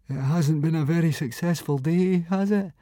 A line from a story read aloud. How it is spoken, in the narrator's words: moaned